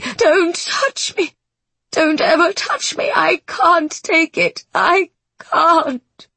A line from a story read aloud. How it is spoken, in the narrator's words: The woman is racked with dry, choking heaves